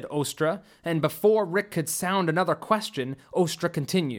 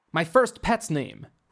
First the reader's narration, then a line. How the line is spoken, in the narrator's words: Rick shot back quickly